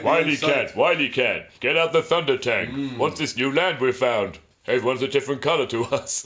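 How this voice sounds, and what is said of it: Cartoon panther character voice. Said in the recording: “I just wanted to do my Panther impression.”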